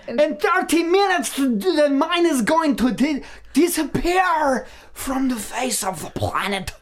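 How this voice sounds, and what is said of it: Weird put-on Icelandic accent. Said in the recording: “it's got to be a weird Icelandic... Is Benedict Cumberbatch trying to do an Icelandic accent?”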